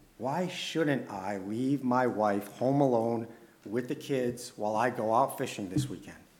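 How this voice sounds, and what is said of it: Usual voice. Nothing is said of it.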